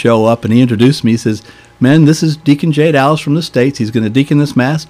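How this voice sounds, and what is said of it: Southern American accent. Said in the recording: “my Southern American accent ... They thought Andy Griffith was in town”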